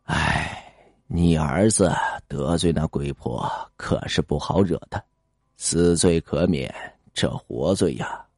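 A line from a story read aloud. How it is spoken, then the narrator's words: Sighing. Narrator (Chinese): 李半仙呀，只是叹了口气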